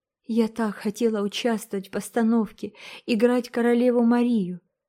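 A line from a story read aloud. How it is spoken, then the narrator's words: Sobbing. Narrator (Russian): всхлипывала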